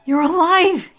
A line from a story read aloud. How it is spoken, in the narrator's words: he cried